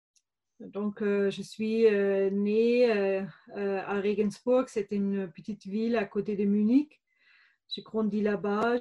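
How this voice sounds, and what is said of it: Slight German accent in French. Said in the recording (French): “on entend un petit accent ... Ce petit accent, euh, comme mon prénom d'ailleurs, vient de l'Allemagne.”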